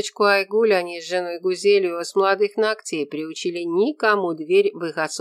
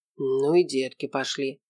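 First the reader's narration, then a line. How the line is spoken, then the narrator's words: Muttering. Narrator (Russian): пробормотал Ренат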